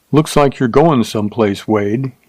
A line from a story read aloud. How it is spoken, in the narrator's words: said evenly